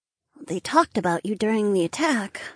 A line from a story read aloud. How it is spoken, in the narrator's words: she murmured